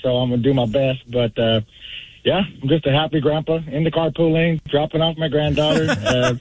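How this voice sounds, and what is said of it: Slightly hoarse voice. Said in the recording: “My voice is still a little bit hoarse”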